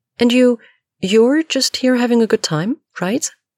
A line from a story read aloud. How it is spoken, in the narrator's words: Kara enunciates, a little desperately now